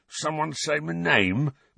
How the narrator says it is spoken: Mundungus mumbled sleepily

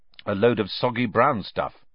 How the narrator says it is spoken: said Harry

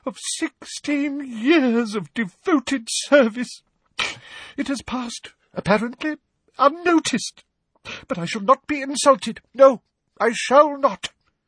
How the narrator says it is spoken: she choked

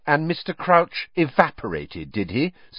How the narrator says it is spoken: said Hermione, coldly

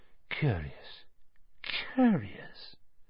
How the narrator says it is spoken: still muttering

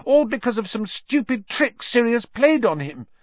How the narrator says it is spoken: Hermione said desperately

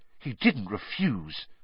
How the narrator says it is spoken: gasped Hermione

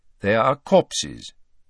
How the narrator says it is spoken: said Dumbledore calmly

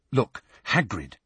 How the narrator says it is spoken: said Hermione urgently

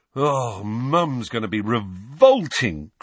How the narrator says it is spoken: groaned George

